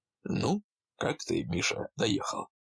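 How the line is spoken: Very calm, serious question. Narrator (Russian): Очень спокойно и совершенно серьезно спросил Амосов

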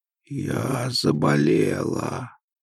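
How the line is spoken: Very hoarse voice. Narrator (Russian): максимально хриплым голосом ответила

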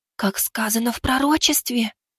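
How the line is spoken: Young female whisper. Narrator (Russian): прошептала юная демоница

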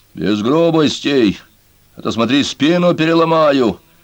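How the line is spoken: Menacing roar, near tears. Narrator (Russian): Грозно взревел Хватки, хотя на глазах у него выступили слезы

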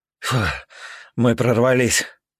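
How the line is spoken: Exhaled with relief. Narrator (Russian): выдохнул

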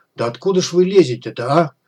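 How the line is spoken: Exasperated exclamation. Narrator (Russian): В сердцах воскликнул Комар

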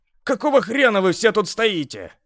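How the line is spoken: Barked. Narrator (Russian): рявкнул я

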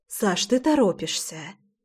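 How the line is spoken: Soft exhaled words. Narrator (Russian): Тихо выдохнула я

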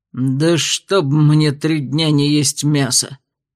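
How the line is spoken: Stunned growl. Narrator (Russian): рыкнул он, остолбенев

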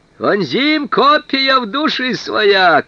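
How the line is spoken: Shout. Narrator (Russian): крикнул один

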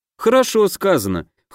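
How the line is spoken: Snort. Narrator (Russian): хмыкнул Дима

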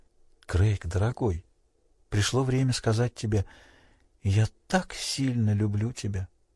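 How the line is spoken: Whisper. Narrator (Russian): прошептала

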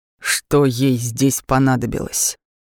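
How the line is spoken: Clipped, quiet voice. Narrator (Russian): Отчеканил он, не повышая голоса

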